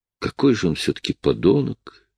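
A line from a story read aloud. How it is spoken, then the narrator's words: Quiet. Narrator (Russian): тихо сказала Лоис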